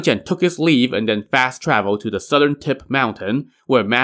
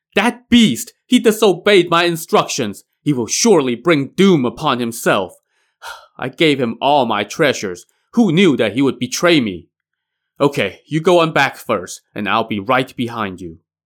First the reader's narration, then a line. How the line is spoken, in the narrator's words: He shouted